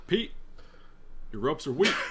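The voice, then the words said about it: Barack Obama impression. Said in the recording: “that your little Obama impression?”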